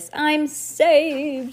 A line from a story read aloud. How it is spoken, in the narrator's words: he cried